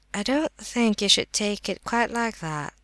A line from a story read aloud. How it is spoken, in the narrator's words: said the prince quietly